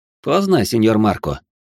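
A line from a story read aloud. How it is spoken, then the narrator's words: Snorting. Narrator (Russian): хмыкнул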